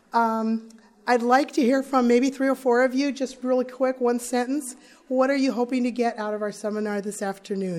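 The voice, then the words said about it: Hoarse, strained voice. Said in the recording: “excuse my voice. I'm just getting over a case of laryngitis.”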